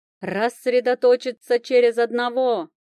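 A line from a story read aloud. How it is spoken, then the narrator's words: Shouting king. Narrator (Russian): прокричал король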